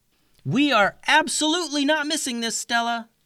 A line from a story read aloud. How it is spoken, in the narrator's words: yelled Clover